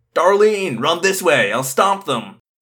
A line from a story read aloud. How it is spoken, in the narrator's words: This guy named Hans yelled